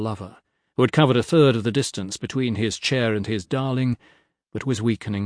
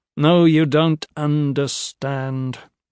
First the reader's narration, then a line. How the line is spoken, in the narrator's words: the autarch said, his voice almost monotonous, but all the more sorrowful for that